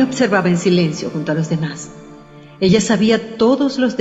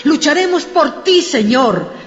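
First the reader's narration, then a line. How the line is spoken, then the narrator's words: Shouting. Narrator (Spanish): gritó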